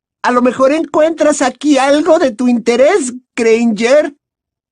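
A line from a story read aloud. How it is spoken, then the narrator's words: Said loudly. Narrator (Spanish): dijo Pansy en voz alta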